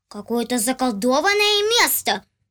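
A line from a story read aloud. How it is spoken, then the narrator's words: Child exclaiming. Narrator (Russian): воскликнул малыш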